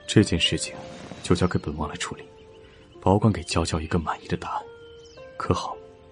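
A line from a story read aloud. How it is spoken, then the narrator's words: Soft, tender comforting. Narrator (Chinese): 楚天却更心疼了，柔声安慰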